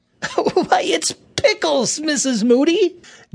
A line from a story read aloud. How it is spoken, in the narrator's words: Johnny laughed